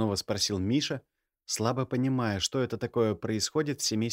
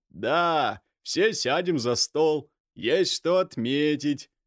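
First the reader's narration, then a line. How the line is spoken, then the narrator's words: Drawling voice. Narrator (Russian): протянул Виктор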